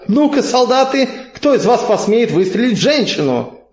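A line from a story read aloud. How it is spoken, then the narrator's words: Shouting. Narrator (Russian): крикнула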